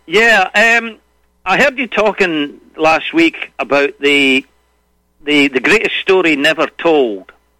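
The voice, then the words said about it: Scottish accent. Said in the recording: “I enjoy that Scottish twang.”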